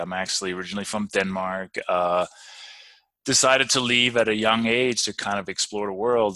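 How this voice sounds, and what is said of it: Danish accent. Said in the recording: “some people can probably hear from my accent”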